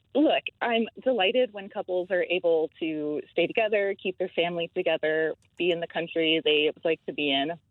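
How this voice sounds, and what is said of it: American accent. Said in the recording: “I'm detecting a different accent there... I'm from the States originally. I've been here 10 years, but I don't think my accent has shifted too much.”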